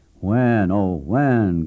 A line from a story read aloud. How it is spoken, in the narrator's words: groaned members to one another